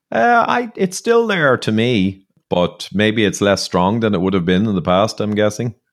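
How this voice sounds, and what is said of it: Local Irish accent. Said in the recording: “That sounds a more local accent to what I'm used to ... It's good to hear a voice that sounds more homely for me”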